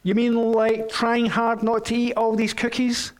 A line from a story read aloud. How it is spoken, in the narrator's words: asked Toad